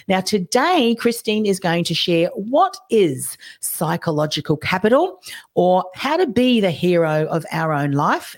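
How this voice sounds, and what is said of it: Strained, failing voice. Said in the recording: “my voice is just about to go”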